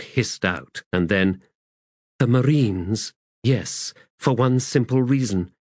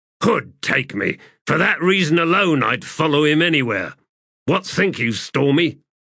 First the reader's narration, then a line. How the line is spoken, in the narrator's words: The man grunted